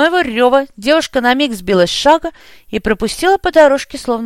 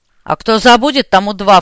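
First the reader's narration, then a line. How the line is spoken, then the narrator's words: Snort. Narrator (Russian): фыркнул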